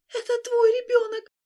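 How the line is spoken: Sobbing. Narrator (Russian): Холли разрыдалась

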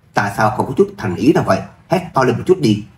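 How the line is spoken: Loud bark. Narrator (Vietnamese): Chim Nhất Đào quát lớn

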